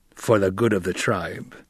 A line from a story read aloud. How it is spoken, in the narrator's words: Stilgar growled